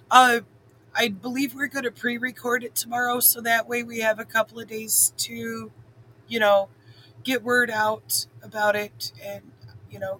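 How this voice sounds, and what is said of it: Strained, fading voice. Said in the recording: “I'm having a little trouble here. ... I'm losing my voice.”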